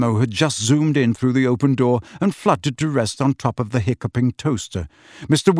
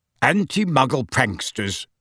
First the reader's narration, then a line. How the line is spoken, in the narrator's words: said Mr